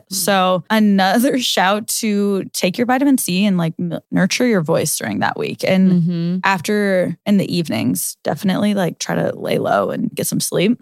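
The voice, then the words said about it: Lower, slightly raspy voice. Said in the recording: “now this voice that you guys hear, that's a little lower, a little raspy ... I actually used to have a very high pitched voice ... I permanently damaged my vocal cords”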